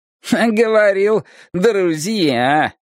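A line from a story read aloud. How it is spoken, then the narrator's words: Smirking electronic voice. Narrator (Russian): хмыкнул электронный нахал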